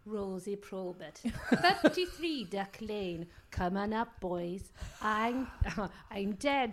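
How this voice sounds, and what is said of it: Put-on Welsh accent. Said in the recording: “It's like Lloyd Langford was in the room ... this is a personal injury lawyer from Wales ... I don't know what that accent was”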